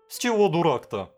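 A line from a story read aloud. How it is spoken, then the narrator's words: Tearful wail. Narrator (Russian): провопил он, готовый расплакаться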